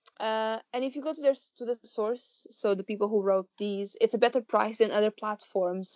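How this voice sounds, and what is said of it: Non-native accented English. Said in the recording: “if someone doesn't understand my accent ... will repeat at the end because she can speak English very well, whereas I have issues at times”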